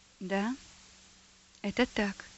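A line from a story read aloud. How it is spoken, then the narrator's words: Quiet. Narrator (Russian): ответил тот тихо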